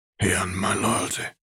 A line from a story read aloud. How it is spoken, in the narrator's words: Arcturus replied gruffly